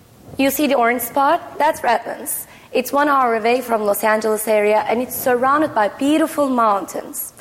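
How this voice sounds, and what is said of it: Turkish-accented English. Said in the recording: “as you can understand from my accent, I'm not from here. I moved to the United States 5 years ago from Istanbul, Turkey”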